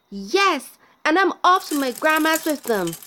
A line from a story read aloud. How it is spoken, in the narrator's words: she cried